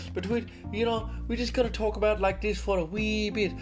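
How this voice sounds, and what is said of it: Attempted Irish accent, slipping posh British. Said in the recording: “I don't have the greatest Irish accent, but I'm going to try... That went a little bit posh British”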